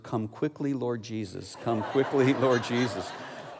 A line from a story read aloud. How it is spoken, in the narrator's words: I heard her continuing to whisper